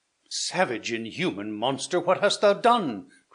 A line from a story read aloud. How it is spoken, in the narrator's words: cried Theodore